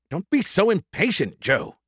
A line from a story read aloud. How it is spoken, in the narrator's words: he snapped